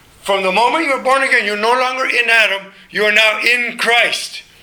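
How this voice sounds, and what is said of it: Loud, yelling-sounding speaking voice. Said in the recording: “excuse my voice for not being I'm still loud, aren't I? My wife always tells me I yell.”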